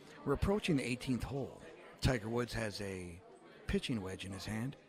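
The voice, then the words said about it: Hushed golf announcer voice. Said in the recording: “put on my PGA voice.”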